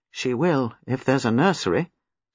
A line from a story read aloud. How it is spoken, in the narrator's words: said Giles gravely